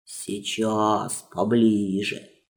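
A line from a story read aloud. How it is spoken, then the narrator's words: Rough grumbling voice. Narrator (Russian): заворчал шершавый голос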